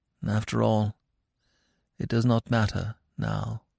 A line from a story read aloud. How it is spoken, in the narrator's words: with a gesture of infinite weariness, she murmured as though to herself